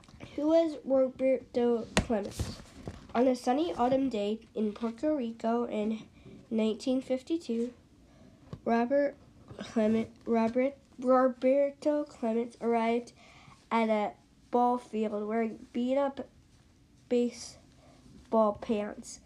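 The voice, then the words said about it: Congested voice from a cold. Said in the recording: “if you can't tell, I have a cold”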